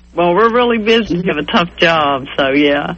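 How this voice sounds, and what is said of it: Kentucky Southern American accent. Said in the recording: “there is something about your voice that really turns me on ... I'm from Kentucky. That's the reason I have this accent ... I can't knock this accent”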